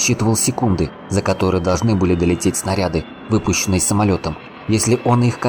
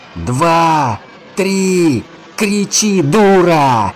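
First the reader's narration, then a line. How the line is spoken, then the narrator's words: Shouting. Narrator (Russian): кричал Руслан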